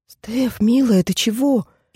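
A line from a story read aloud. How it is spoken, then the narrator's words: Frightened wailing. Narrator (Russian): испуганно запричитала Алиса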